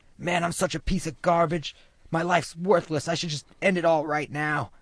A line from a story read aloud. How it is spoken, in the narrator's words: suddenly screams out